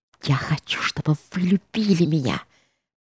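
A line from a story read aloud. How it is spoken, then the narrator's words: Whispered. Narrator (Russian): прошептала она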